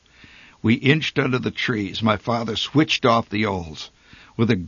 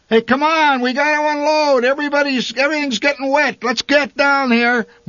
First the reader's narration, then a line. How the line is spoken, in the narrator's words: my father shouted through the trees